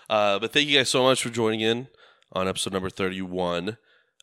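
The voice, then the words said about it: Raspy, worn voice. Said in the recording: “my voice has gotten worse with this episode, hasn't it? It's like so much more like raspy”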